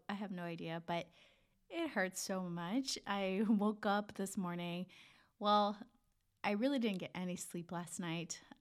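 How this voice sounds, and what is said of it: Voice sounds off, sick. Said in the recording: “my voice is a little off today, and I think I have strep throat”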